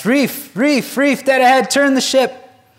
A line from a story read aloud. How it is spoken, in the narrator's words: the barrelman, from the crow's nest, shouts